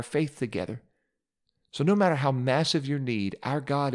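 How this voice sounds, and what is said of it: Usual voice. Nothing is said of it.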